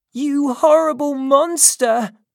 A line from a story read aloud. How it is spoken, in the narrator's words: cried